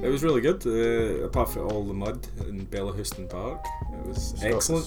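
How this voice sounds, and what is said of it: Tired, sore-throated voice. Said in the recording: “your voice just exhausted from last night for the gig ... he's got a sore throat”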